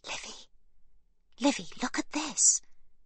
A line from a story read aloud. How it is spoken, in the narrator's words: Sibby whispers to her sister